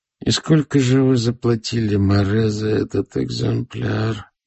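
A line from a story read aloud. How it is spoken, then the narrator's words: Barely audible, closed mouth. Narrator (Russian): спросил я чуть слышно, не раскрывая рта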